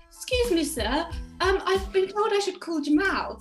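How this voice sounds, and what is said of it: Put-on British accent. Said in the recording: “in my perfect British accent”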